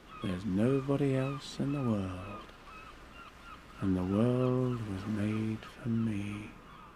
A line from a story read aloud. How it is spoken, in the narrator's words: I'd say to myself